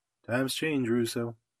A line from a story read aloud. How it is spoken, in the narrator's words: answered quietly